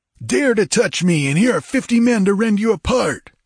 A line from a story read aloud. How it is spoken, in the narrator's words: he screeched